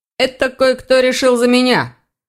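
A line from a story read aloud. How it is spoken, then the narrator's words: Grumbling. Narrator (Russian): проворчал он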